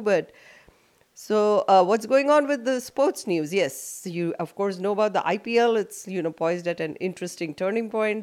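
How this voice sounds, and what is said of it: Voice slightly affected by a cold. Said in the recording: “I have a little cold, so I may not sound as good as I normally do”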